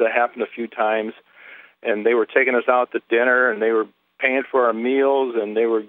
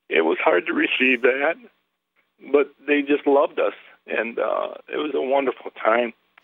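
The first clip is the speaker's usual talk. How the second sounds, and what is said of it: Emotional, choked-up speech. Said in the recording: “I'm getting emotional.”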